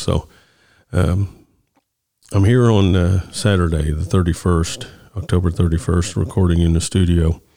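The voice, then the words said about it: Deeper than usual voice. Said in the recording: “I have my winter voice on now... my deeper, sexy voice... it happens to me every winter”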